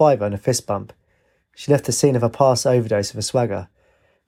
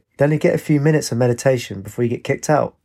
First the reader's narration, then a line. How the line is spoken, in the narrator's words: Astride laughed and said